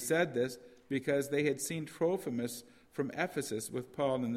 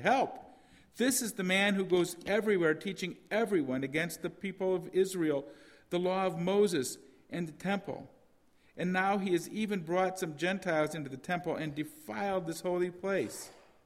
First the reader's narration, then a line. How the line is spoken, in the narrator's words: shouted